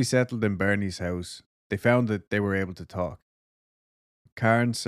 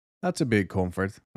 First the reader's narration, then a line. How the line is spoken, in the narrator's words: I said